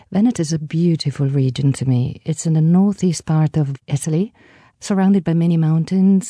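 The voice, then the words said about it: Italian Veneto accent. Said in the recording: “nice Veneto accent ... roll the R's”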